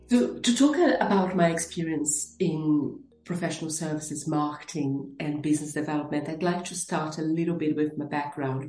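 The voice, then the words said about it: Brazilian accent in English. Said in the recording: “You will notice an accent. I am originally from Brazil”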